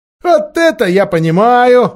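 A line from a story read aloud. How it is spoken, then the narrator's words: Several sailors shouting. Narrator (Russian): закричали несколько матросов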